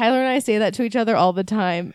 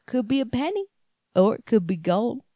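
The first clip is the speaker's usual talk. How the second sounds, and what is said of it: Thick put-on Southern accent. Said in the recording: “In a thick Southern accent?”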